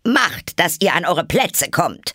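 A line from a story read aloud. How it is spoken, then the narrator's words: Queen's thundering voice. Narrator (German): die Königin donnerte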